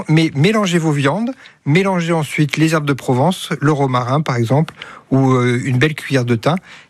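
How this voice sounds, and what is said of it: Southern French accent. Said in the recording (French): “votre accent, on les retrouve un petit peu comme Mireille Mathieu... Ah non, elle, c'est Avignon... on descend un peu plus.”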